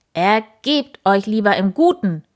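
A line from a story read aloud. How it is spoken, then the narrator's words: Called out. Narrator (German): rief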